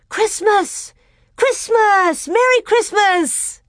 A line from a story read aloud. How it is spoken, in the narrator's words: yelling